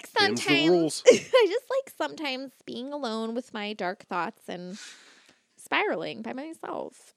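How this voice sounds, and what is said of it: Stuffy, congested nasal voice. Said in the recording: “I'm actually stuffy today... why do I sound like my nose is just contained in snot?... I feel a little stuffy tonight.”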